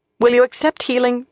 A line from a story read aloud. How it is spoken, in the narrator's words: she asked coldly